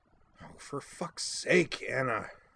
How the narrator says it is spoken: I grumbled, not that she could hear me over the din

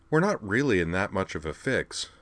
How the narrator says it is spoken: Len observed calmly

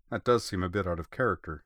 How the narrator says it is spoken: she agreed dryly

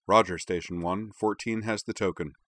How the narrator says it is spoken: voice gave no sign of it as he replied calmly

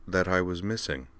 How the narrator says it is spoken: said our Dorothy calmly

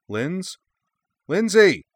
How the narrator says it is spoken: Kaname shouted

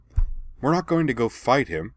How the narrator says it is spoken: Anne snapped, frustrated

